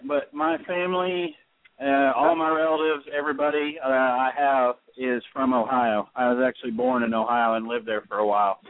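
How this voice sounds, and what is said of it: Texas accent. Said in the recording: “I have a Texas accent”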